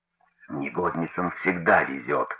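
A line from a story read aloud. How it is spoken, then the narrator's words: Muttering. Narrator (Russian): бормотала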